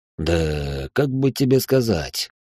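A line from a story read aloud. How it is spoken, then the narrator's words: Thoughtful drawl. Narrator (Russian): Задумчиво протянул мой начальник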